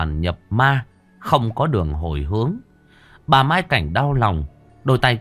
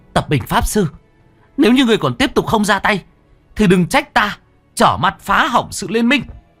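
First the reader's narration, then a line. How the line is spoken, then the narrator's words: Sudden scream. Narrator (Vietnamese): Bất chợt cô anh hét lên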